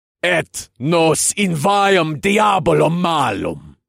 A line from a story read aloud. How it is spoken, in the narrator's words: I bellowed